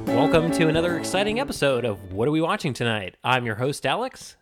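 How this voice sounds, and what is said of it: Mr. Moviefone announcer voice. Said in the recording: “I'm trying to do like an announcer kind of ... You had like a very Mr. Movie phone. You put on your Mr. Movie phone voice.”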